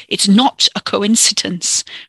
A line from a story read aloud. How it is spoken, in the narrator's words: Ricky snarled